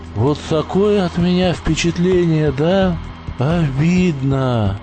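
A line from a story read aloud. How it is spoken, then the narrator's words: Sighed. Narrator (Russian): Вздохнул он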